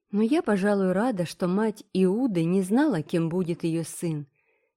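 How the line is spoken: Soft, gentle. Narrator (Russian): мягко сказала Энн

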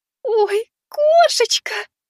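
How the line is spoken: Squeaky excited cry. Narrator (Russian): запищала мама

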